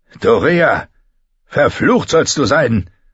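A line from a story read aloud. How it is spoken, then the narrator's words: Roared. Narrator (German): brüllte Ser Jorah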